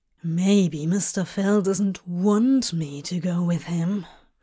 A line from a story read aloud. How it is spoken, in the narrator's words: Crowley growled as quietly as he could, but despite his efforts to lower his voice